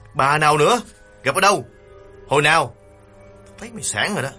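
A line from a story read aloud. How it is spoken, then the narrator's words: Irritated snapping. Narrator (Vietnamese): Nghiên bực bội gắt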